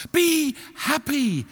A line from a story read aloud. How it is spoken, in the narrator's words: cried the nightingale